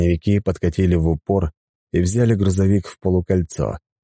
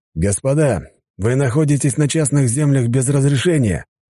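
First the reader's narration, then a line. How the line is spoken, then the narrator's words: Loud, older man. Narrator (Russian): громко произнес старший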